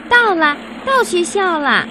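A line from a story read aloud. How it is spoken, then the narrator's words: Excited call. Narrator (Chinese): 阿特看到学校就叫了出来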